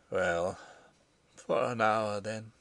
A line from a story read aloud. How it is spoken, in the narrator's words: he murmured